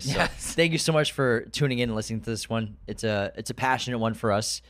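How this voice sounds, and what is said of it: Strained, hoarse voice. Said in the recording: “I feel like I'm losing my voice.”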